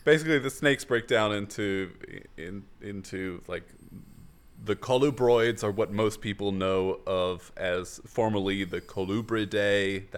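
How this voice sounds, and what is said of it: Strained voice, nearly losing it. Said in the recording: “I'm also on the verge of losing my voice.”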